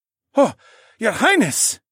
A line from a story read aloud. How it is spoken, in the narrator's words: The other guard gasped